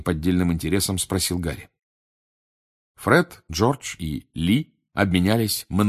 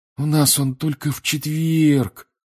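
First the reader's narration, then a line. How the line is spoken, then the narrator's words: Disappointed sigh. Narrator (Russian): разочарованно вздохнул он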